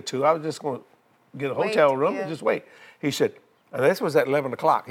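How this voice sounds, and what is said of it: New Orleans accent. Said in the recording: “they said I talk funny. I guess in my accent. I said, I'm from New Orleans.”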